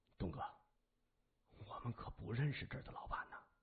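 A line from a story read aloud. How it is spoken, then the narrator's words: Quiet, low voice. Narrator (Chinese): 三眼小声说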